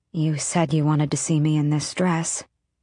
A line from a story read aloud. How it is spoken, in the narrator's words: she said a bit hoarsely